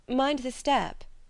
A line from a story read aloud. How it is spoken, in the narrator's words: cried Edna